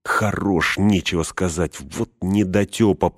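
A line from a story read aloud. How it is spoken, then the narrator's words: Grumbling. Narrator (Russian): пробурчал он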